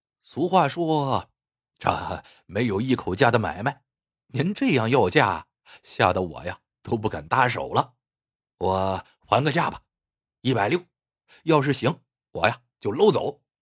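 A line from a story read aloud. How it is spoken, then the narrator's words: Chuckling. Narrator (Chinese): 李四呵呵一笑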